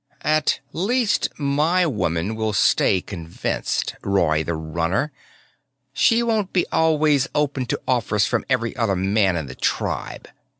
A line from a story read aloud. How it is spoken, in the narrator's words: he said slowly and definitely